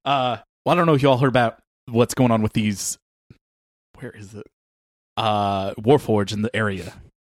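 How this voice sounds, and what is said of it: Fast crazy robot character voice. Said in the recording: “accent? ... It sounds like crazy robot, like talking fast.”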